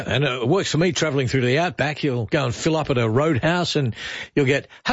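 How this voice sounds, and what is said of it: Usual voice. Nothing is said of it.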